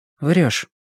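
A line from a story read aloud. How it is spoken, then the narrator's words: Uncertain girl's question. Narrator (Russian): неуверенно спросила девушка после короткого молчания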